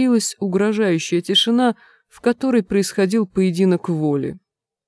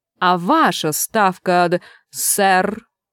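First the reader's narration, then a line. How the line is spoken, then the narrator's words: Growled. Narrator (Russian): Чудакулли прорычал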